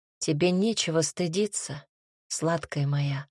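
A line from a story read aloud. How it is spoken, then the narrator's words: Quiet, convincing. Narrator (Russian): тихо, но убедительно сказал он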